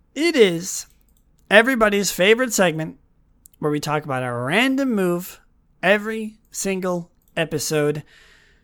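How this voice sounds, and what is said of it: Hoarse, strained voice. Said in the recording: “my voice getting hoarse”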